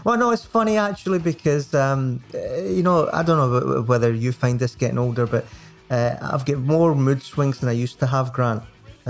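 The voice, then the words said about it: Scottish accent. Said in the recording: “very, very good in a Scottish accent”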